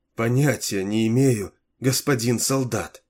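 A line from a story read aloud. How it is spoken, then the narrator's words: Trembling voice. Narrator (Russian): ответила она дрожащим голосом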